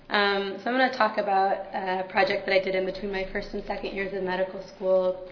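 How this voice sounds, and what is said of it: Slightly hoarse voice. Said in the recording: “I'm just recovering from a cold, so a little bit hoarse.”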